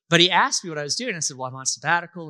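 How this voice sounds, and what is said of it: American Southern accent. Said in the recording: “He could tell by my accent that I'm not British, obviously. I'm Southern.”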